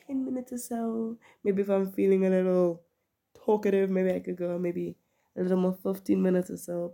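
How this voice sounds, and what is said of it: Sick, unwell-sounding voice. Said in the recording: “my voice, I'm sick, if you cannot tell of the last few episodes... my voice just does this... it's starting to sound a bit better”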